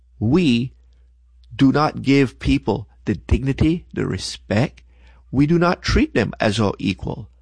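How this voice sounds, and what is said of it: Non-American foreign accent. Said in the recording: “I am not originally from America. Most of y'all probably figured that out from my accent.”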